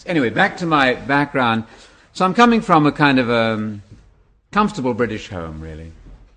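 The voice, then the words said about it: English accent. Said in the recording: “My English, by the way, is English... I'm not from Alabama... that's a funny accent you've got. What is that accent?”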